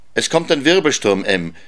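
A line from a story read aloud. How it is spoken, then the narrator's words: Calling out. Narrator (German): rief er seiner Frau zu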